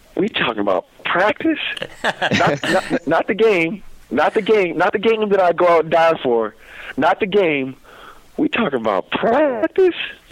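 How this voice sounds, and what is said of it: Impression of the famous practice rant. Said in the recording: “do an impression of the practice rant”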